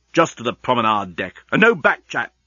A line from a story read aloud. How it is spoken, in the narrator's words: snapped Leovinus